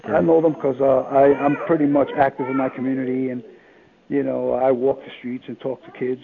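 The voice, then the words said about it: New York City accent. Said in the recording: “You've got the New York accent”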